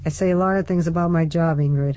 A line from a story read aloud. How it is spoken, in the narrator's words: her father said flatly